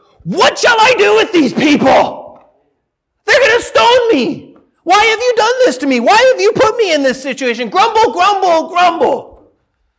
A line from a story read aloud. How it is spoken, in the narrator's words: Moses cried to the Lord